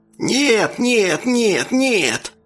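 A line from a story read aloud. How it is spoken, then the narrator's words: Creature screaming, shrieking, growling. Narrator (Russian): Тварь закричала, завизжала, зарычала, замычала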